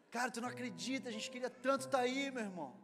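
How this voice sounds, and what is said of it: Weak imitation of Rio de Janeiro accent. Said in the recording (Portuguese): “Tem algum carioca que está ofendido com a minha imitação? ... Eu não sou muito bom imitando cariocas”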